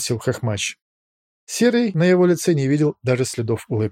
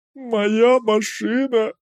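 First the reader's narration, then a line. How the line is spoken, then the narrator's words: Groan. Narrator (Russian): простонал Лось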